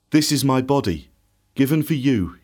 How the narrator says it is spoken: he said

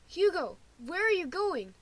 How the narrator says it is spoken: Lewis shouts

